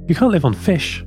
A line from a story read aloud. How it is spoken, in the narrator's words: exclaimed Linda